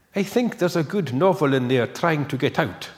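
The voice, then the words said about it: Impression of Ken McLeod's island accent. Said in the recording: “I'm going to try and attempt to do Ken McLeod's accent ... Ken is from the islands originally ... I'll stop doing the accent”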